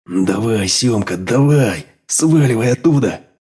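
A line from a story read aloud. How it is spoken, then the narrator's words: Through clenched teeth. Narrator (Russian): процедил сквозь зубы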